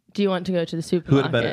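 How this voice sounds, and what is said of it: Put-on basic British English accent. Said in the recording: “just like how an English teacher speaks ... British English ... not posh. Just like basic.”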